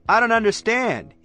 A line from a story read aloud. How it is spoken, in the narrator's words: he hollers out over the noise of the pigs